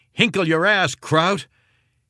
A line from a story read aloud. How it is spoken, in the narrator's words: Heffron yelling